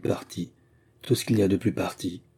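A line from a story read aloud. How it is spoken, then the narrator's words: Murmuring. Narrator (French): murmura-t-il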